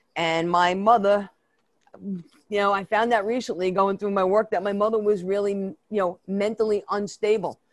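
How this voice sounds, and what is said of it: Brooklyn New York accent. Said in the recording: “my New York accent, it's really a Brooklyn accent.”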